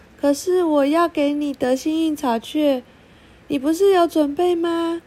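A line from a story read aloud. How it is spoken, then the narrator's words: Laughing. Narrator (Chinese): 蜜莉突然注意到了什么，笑了起来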